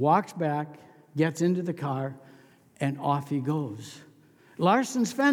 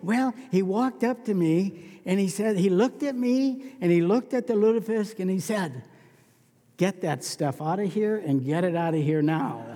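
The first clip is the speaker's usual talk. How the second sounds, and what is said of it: Put-on Norwegian accent. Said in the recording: “you notice my great Norwegian accent here”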